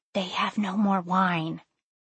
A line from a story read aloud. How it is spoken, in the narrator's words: Mary whispering to Jesus